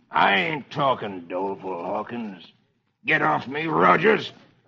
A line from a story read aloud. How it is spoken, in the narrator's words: The outlaw snarls